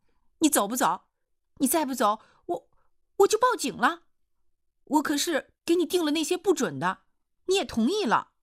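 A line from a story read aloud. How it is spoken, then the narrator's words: Shouting. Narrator (Chinese): 易晴娥就喊叫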